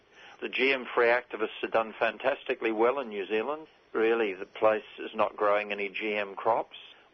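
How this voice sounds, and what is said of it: New Zealand accent. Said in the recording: “I judge by your accent, which you've managed to maintain, that the trip was to New Zealand ... You can still hear it.”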